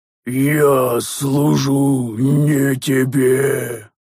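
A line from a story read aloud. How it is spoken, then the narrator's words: Roared. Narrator (Russian): проревела жертва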